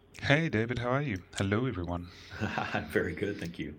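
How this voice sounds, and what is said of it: Smooth radio announcer voice. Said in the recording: “It's my radio voice. ... yes, you have a good radio voice”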